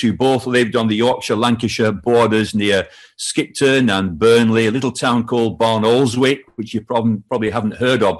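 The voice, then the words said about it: Northern English accent. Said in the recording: “you might spot from my accent that I'm not from Wales and I'm not from London. I'm from the north of England.”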